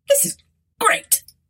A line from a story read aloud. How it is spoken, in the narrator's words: spluttered Arthur